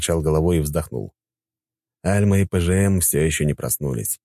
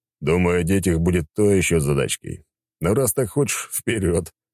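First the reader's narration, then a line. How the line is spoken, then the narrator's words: Chuckling. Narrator (Russian): Хохотнув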